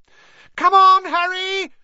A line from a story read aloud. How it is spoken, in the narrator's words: Hermione screamed